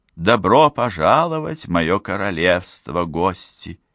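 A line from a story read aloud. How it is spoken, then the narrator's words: Unearthly exclamation. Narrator (Russian): неземным голосом воскликнула она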